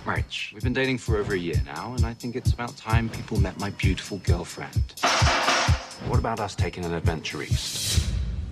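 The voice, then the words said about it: British accent. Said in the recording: “all good looks and British accent”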